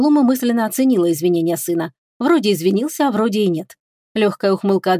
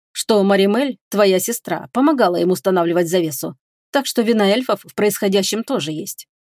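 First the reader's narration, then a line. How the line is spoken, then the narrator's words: Cool tone. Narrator (Russian): прохладным тоном сказал Фенрис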